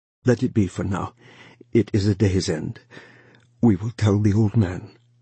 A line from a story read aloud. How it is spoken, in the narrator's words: he said, his voice thick in his throat